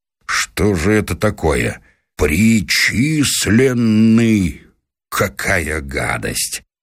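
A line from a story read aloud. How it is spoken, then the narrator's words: Laughing loudly. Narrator (Russian): Федор Иванович захохотал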